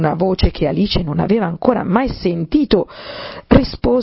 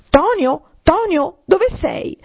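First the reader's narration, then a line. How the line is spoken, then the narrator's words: Furious rabbit shouting. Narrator (Italian): una voce infuriata, quella del coniglio, gridò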